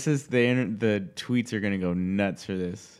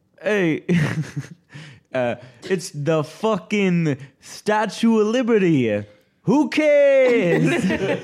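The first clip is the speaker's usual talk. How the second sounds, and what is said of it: New York accent impression. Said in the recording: “my New York guy, my impression ... Authentic New Yorker”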